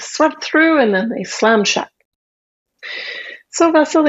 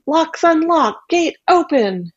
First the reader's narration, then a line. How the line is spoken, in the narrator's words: Baba Yaga shouted